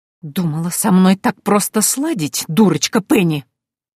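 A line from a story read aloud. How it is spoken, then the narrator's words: Hissed. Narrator (Russian): прошипела Антария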